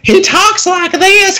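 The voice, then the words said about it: Affected high-pitched helium-like voice. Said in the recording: “It is like the most horrible, affected, helium-induced thing I've ever heard.”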